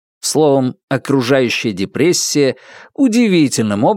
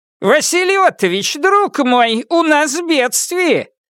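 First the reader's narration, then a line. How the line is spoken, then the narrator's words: Shouting from a distance. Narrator (Russian): прокричал председатель, не достигнув еще крыльца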